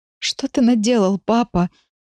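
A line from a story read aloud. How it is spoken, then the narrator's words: Sobbing. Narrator (Russian): всхлипываю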